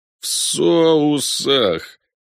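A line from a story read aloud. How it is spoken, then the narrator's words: Shaken moan. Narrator (Russian): простонал переживший потрясение Мевен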